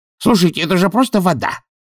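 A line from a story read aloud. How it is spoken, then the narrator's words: Bark. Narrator (Russian): рявкнул Чудакулли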